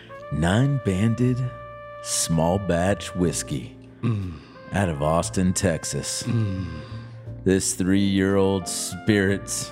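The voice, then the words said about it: Sultry, sexy reading voice. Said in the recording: “In your most sultry, sexy voice”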